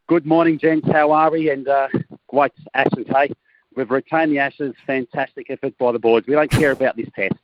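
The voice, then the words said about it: Australian accent. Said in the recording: “he was our pro-Australian brigade ... you're going to hear it in his accent”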